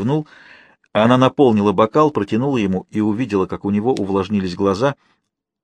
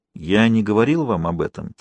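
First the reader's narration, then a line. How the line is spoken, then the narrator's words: Quiet. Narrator (Russian): тихо сказал Мистраль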